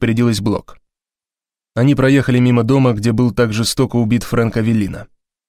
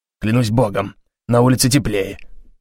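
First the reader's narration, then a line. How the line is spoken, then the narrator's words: Grumbling. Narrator (Russian): пробурчал он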